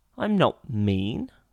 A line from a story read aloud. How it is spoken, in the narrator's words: said Paddington indignantly